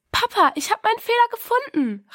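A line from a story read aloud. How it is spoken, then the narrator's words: Called out. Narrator (German): rief sie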